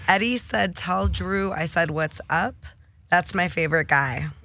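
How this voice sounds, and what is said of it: Hoarse, raspy voice. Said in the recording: “Can you see I lost my voice? ... It's called Cali voice.”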